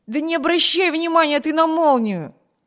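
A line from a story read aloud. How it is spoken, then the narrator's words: Impatient shout. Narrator (Russian): нетерпеливо крикнул Виберт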